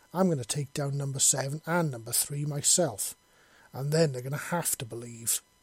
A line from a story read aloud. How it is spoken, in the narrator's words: she exclaimed